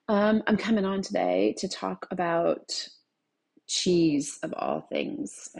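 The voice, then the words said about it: Sexy morning voice. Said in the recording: “I'm probably gonna have a little bit of like morning sexy voice because this is the first time I'm speaking out loud today.”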